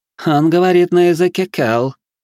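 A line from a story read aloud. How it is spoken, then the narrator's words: Sudden purring woman. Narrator (Russian): неожиданно промурлыкала та, что угрожала арбалетом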